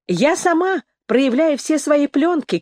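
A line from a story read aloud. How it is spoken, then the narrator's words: Shouted from another room. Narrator (Russian): крикнула Эмили из кухни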